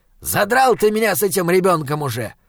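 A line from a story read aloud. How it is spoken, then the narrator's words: Irritated demon barking. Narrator (Russian): раздраженно рявкнул демон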